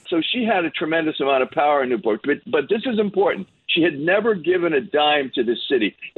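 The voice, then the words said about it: Newport accent. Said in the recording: “I'm falling back into my Newport accent”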